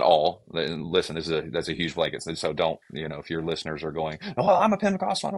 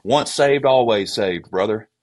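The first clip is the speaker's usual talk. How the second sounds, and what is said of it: Southern US accent. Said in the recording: “if I use my Southern accent, don't get offended because I'm actually from Georgia”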